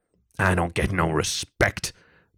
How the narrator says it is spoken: Topher barked at the audience

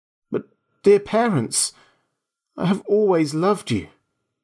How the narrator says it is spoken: He cried softly

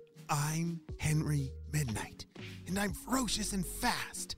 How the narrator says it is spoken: whispered to himself

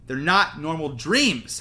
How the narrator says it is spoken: Harry shouted in her face

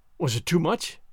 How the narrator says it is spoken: I asked, a little faltering

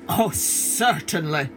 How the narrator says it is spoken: laughed the lion, for he expected an easy victory

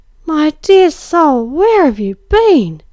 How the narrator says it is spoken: she cried

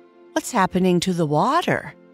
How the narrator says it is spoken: Winky asked, a note of concern in his bubbly voice

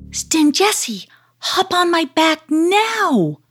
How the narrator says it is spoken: cried Karima

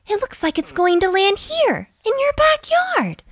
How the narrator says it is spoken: Lily exclaimed

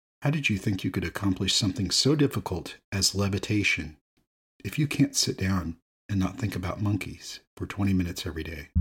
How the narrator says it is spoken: The monk calmly stated

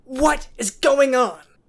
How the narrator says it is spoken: Trent shouted

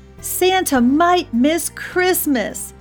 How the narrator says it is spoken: shouted the elves

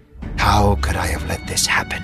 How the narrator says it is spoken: he whispered to himself

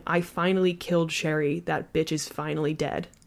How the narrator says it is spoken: he was mumbling

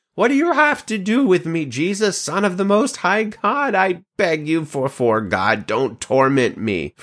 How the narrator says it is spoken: he cried out with a loud voice

